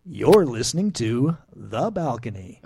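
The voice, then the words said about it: Announcer-style radio voice. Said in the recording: “you're using radio voice”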